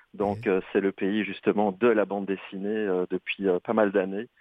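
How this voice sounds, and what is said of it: Belgian French accent. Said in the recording (French): “tu remarques à mon accent que je viens plutôt de l'Europe et de la Belgique”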